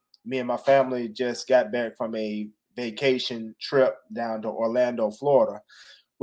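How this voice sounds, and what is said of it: Sick, under-the-weather voice. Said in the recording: “I don't know if you can see in my face or hear it in my voice, but I'm a little bit under the weather”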